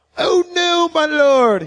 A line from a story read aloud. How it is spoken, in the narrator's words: he cried out